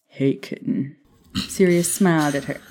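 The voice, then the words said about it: Deep male character voice. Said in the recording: “But that's my Sirius voice. ... I've been doing this voice for 3 fucking years. ... He's got a deep voice.”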